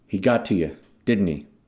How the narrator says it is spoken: Hoffa asked

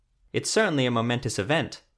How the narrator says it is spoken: Professor Rondelden said

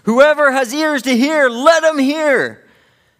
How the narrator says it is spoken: he cries out, he yells

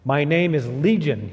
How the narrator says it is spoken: he replied

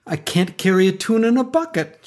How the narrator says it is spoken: cried

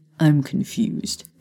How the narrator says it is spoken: Harry muttered

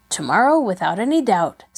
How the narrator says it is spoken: said Peter

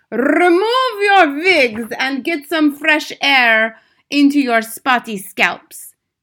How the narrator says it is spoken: shouted

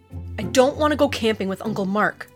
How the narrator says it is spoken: he muttered

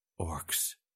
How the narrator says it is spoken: he whispered

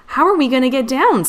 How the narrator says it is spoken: Scout cried

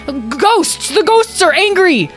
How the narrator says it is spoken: Without thinking, Tom yelled out again

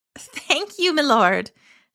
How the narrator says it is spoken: Shannon cried

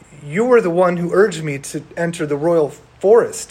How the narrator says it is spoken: he cried

